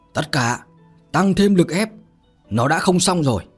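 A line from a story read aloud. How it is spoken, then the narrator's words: Loud shout. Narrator (Vietnamese): Kiếm Tuệ liền hét lớn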